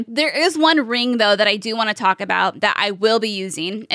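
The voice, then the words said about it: Strained, worn-out voice. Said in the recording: “losing my voice because I have been streaming for about, 4 hours now”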